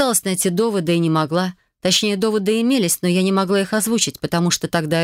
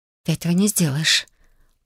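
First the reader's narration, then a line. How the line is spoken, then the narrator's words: Barely audible whisper. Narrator (Russian): прошептала я едва слышно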